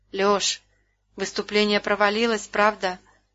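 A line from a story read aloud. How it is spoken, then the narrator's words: Dejected question. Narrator (Russian): упавшим голосом спросила она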